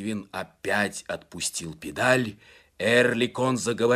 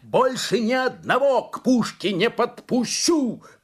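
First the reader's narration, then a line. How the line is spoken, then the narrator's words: Shouting. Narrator (Russian): крикнул Брэнгвин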